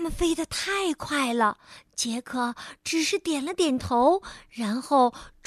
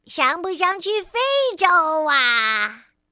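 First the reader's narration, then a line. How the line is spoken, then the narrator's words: Shouting. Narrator (Chinese): 白日梦先生……他喊道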